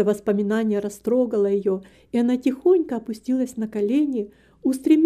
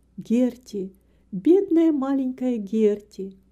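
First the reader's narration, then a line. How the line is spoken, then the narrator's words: Gentle, affectionate. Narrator (Russian): звезды так ласково мигали ей, будто приговаривая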